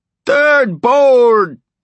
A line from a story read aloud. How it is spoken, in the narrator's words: Stilson roared